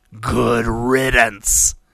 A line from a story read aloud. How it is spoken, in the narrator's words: the warrior snarled